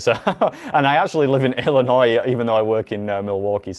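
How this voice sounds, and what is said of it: Non-American accent. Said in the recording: “You may already have guessed from my accent, but I'm not from Wisconsin or indeed from America.”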